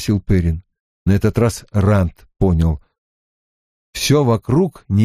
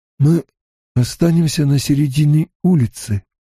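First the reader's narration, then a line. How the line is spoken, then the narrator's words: Hoarse. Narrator (Russian): хрипло сказал Ранд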